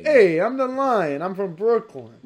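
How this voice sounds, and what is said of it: Old Brooklyn comedian accent. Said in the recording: “the lion doing a little, like, curly, like, Brooklyn comedian thing ... Like, old, old Brooklyn”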